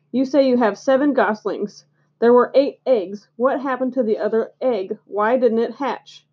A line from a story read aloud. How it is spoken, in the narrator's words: he began in his sharp voice